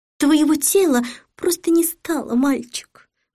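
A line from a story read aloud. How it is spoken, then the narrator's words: Sighing. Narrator (Russian): вздохнула Сатофа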